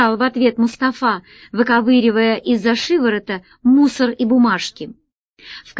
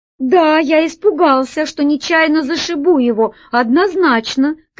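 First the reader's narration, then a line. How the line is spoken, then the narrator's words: Shouting back. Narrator (Russian): кричал в ответ Джин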